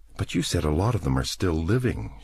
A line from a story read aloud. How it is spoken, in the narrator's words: she said nervously